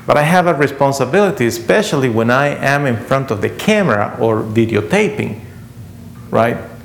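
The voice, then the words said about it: Non-native accented English. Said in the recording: “my poor accent”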